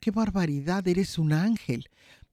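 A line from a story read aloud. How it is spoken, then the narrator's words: Old woman's moved exclamation. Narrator (Spanish): La anciana, emocionada, exclamó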